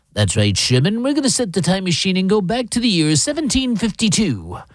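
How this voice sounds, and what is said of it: Imitates a cartoon character's voice. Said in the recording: “my best impression of ... the cartoons of Peabody and Sherman”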